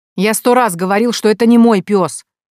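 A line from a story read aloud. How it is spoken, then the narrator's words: Loud reply. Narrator (Russian): ответил уже громко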